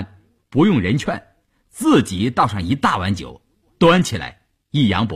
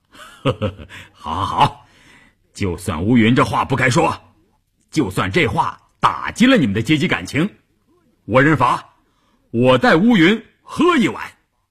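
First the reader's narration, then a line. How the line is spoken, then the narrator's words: Cheerful laughing. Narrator (Chinese): 关山林笑呵呵地说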